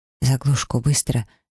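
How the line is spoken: Whisper. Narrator (Russian): шепнула я

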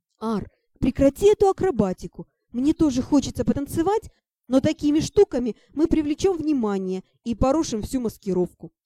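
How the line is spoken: Hissing. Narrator (Russian): зашипела я

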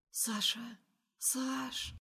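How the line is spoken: Quiet whisper in ear. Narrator (Russian): Шепчет тихо на ухо

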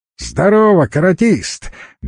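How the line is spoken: Short tittering laugh. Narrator (Russian): мелко рассмеялся Леха

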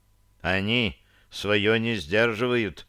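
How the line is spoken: Gruff mutter. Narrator (Russian): буркнул проповедник Маркольд

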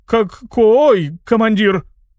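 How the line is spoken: Stammering question. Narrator (Russian): заикаясь, спросил толстяк

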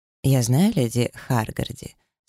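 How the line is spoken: Calm. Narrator (Russian): спокойно отозвался наследный принц

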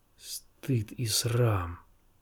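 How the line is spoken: Old man hissing. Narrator (Russian): прошипел старик

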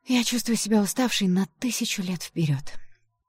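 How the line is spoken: Weary sigh. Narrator (Russian): вздохнула я

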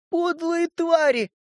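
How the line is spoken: Sobbing. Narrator (Russian): всхлипывала она

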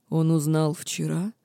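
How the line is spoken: Hoarse question. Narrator (Russian): хрипло спросил Динар

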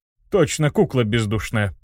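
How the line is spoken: Skeptical snort. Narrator (Russian): хмыкнул Бертран

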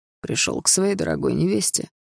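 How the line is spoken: Mocking reply. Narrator (Russian): ответил Даррелл, насмешливо глядя мне в глаза

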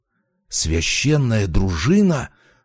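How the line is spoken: Startled whisper. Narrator (Russian): вдруг, вытаращив глаза, прошептал Качан

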